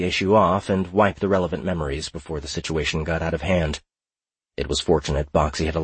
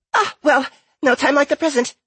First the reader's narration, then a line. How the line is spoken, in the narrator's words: squeaked the gnome